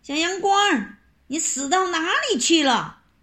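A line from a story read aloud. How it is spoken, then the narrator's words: Shouting from afar. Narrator (Chinese): 地主婆在厨房里大喊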